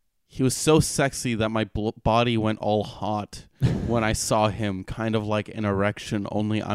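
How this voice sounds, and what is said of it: Usual voice. Nothing is said of it.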